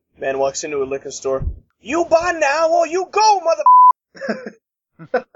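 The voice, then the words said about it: Put-on Chinese accent, imitates another person's voice. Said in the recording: “best Chinese Samuel Jackson impression ... Chinese Samuel Jackson”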